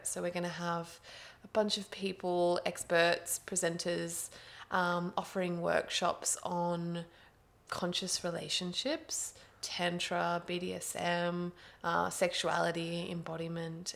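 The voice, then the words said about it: Australian accent. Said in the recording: “Sydney, Australia, if you couldn't tell from the accent.”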